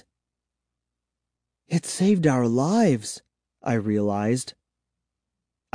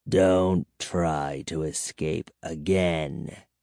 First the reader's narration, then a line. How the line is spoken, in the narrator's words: he growled